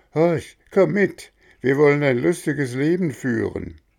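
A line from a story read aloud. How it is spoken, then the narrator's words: Calling out. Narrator (German): rief Röhrle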